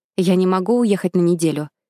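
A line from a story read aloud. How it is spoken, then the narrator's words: Angry. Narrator (Russian): сказала я подруге, сердито глядя на нее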